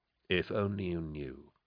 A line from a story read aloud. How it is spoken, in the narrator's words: Trice murmured